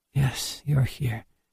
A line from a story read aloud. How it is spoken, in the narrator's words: murmured